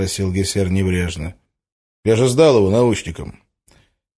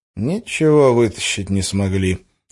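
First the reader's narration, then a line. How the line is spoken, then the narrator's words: Sighing. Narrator (Russian): вздохнул Гессер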